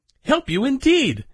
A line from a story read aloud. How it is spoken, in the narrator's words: exclaimed Medio Pollito